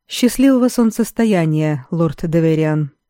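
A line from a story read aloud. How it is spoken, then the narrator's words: Dry, awkward remark. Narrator (Russian): сухо от необъяснимой неловкости уронил Грегор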